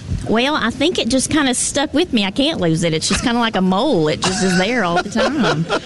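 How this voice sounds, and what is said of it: Texas accent. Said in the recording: “I'm from Atlanta, Texas, originally ... Are you trying to lose the accent, or are you hanging on to it with pride? ... that accent”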